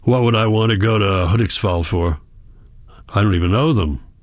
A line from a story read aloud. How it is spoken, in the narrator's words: he grunts